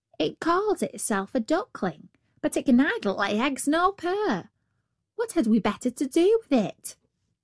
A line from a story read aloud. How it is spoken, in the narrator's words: said the hen